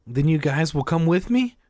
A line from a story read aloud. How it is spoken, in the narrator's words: Greg asked eagerly